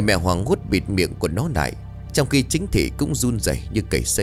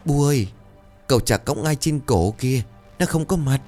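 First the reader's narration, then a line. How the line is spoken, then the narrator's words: Terrified child stammering, crying. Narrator (Vietnamese): một đứa trẻ con tới xem lễ bỗng khóc thét, miệng lắp bắp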